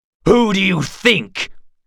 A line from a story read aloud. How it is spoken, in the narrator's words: cried Conroyd Geralt